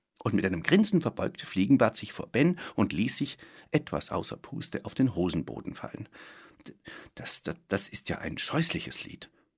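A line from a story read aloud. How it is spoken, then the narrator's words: Stammering. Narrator (German): stammelte Ben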